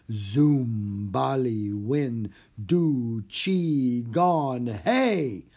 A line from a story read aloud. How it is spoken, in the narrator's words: In a deep, mysterious voice, Jack intoned